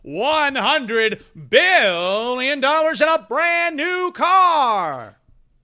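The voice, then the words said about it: Game show host voice. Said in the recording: “game show voice.”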